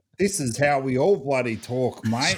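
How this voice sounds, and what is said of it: Exaggerated put-on Australian accent. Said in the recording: “You've put on the full Australian for us. ... you're Australian and putting on an Australian accent.”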